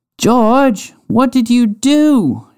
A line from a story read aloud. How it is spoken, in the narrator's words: shouted the other person in the bucket